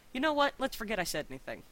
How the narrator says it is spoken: he said quickly

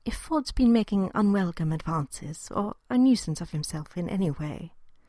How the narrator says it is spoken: he began gently

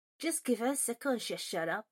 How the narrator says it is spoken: Finnegan grumbled loud enough for everyone else in the hall to hear

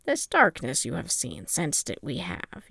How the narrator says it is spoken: Yoda said grimly

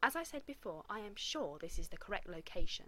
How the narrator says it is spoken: Taylor interrupted sharply

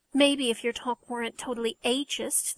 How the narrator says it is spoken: the second stepmother muttered loudly

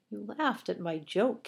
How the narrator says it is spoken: he murmured

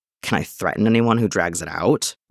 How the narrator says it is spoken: Cody grumbles

